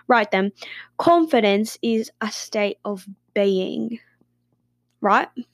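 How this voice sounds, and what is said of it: Put-on British accent, slightly Australian. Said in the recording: “Let me say it in a British accent so it hits different ... I feel like I sound a little bit Australian.”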